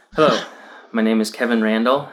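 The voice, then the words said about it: Scared-sounding voice. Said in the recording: “why does he sound scared?... He does sound scared.”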